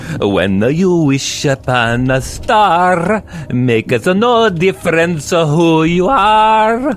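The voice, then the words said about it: Put-on accent. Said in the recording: “as soon as you did the accent”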